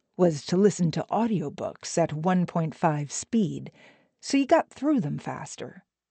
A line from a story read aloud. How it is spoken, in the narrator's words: Arthur told Ben in a conspiratorial tone